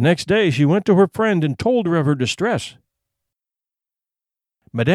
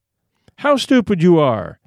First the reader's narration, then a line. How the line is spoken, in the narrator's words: her husband cried